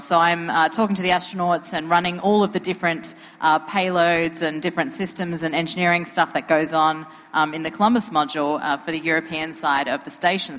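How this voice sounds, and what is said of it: Australian accent. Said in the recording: “they get this Adelaide accent.”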